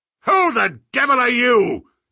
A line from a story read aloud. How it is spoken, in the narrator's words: he thundered